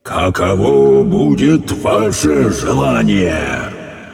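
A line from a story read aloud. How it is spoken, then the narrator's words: Menacing. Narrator (Russian): грозно добавил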